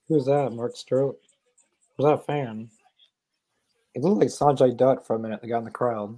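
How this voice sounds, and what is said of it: Scratchy voice. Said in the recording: “my voice is all scratchy”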